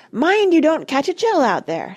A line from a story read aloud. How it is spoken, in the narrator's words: shouted Dulcibel